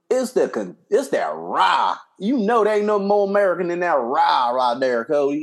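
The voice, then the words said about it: Put-on Southern American accent. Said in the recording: “You brought out that southern accent.”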